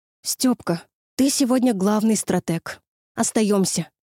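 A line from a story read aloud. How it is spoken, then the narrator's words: Relieved exhale. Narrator (Russian): выдохнула с облегчением Люси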